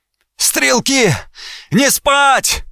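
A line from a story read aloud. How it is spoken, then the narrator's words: Straining hoarse shout. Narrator (Russian): надрывая горло, выкрикнул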